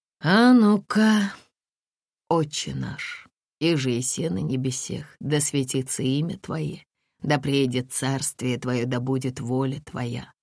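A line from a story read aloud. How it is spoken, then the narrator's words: Slow. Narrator (Russian): начал Сергий медленно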